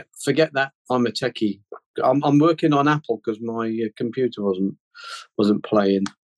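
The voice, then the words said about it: English Midlands accent. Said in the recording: “That beautiful Midlands brogue of yours”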